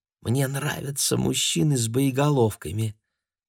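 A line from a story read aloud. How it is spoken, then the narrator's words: Thin girlish whisper. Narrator (Russian): Тонким девчачьим голосом прошептала ему на ухо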